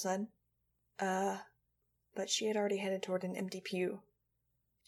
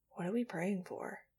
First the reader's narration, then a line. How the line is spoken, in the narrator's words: He asked softly